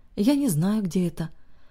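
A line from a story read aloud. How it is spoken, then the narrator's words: Exhausted, effortful speech. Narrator (Russian): очень устало произнесла собеседница, как будто говорить ей стоило больших усилий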